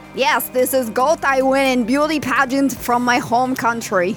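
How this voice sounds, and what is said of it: Put-on foreign accent, broken English. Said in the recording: “Listen to her accent. Are you one of them commies?”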